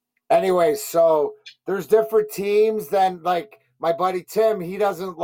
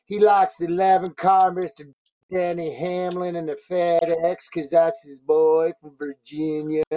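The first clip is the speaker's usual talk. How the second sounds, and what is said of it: Imitates another person's voice. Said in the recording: “that was my worst Ronnie impersonation.”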